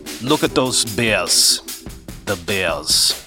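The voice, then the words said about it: Werner Herzog impression. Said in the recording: “my Werner Herzog impression”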